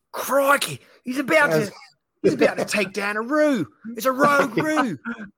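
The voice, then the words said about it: Put-on Australian accent. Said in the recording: “in your Australian accent”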